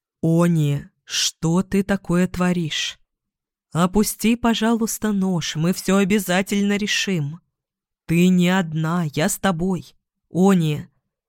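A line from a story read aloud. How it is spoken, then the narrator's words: Calm, measured, soothing. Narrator (Russian): говорил так спокойно, размеренно, будто пытался одновременно успокоить ребенка и поймать в сети хищного зверя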